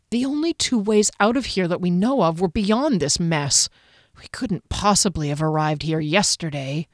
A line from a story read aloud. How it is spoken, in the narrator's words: Kier muttered